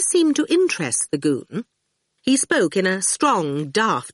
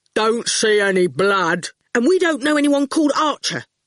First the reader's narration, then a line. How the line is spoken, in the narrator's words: Howard snapped